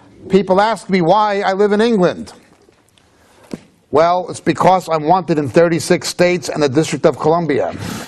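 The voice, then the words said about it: New York City accent. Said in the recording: “as you can tell from my Robert De Niro, Bugs Bunny, James Cagney accent, ... New York City”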